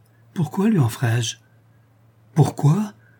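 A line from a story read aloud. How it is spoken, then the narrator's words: Exclaiming. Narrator (French): s'écria Schedoni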